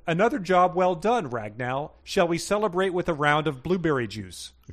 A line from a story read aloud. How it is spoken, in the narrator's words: The elf Nevins yelled